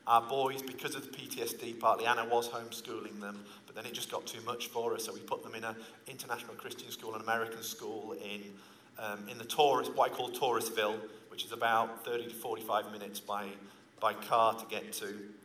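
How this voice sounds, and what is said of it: Northern English accent. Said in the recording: “he's also got a similar accent to me, but he's from the south of England, not the north like me”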